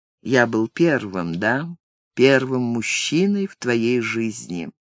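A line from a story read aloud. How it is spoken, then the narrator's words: Quiet question. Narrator (Russian): он тихо спросил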